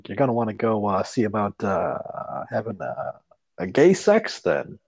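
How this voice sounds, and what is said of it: Imitates another person's speaking cadence. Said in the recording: “my impersonation of Norm MacDonald's cadence”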